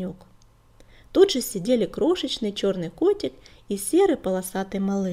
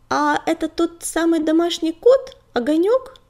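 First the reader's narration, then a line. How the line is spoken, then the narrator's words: Kitten's squeak. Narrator (Russian): пискнул белый котенок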